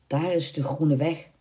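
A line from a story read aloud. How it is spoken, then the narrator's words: Muttered. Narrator (Dutch): mompelde hij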